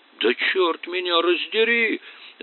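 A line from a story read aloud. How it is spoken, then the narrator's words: Yelling. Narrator (Russian): завопил Харлан Моффет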